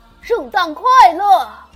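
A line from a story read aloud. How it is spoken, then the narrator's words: Loud, cheerful call. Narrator (Chinese): 他把手拢在嘴边，大声说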